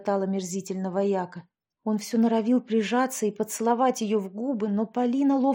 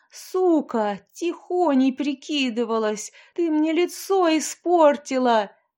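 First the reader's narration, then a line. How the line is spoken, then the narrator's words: Wild furious yell. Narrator (Russian): заорал дурным голосом потомок ханского рода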